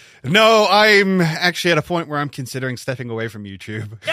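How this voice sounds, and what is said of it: Usual voice. Nothing is said of it.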